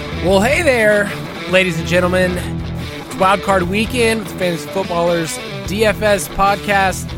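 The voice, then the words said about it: Slight southern twang. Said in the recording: “a little southern twang there with your intro”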